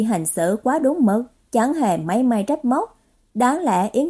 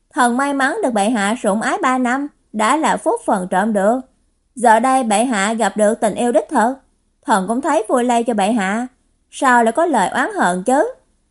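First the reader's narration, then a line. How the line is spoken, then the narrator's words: Cold wry laugh. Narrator (Vietnamese): Đương Cửu còn cười nhạt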